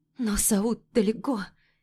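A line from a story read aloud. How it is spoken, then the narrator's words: Trembling voice. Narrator (Russian): произношу дрожащим голосом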